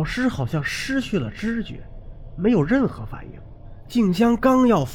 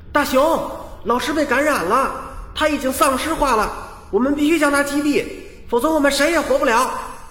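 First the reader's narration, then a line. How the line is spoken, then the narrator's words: Shouting. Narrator (Chinese): 小山 冲大熊喊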